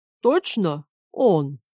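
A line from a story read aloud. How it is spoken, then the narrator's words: Uncertain deep voice. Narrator (Russian): Неуверенно пробасил голос с левого боку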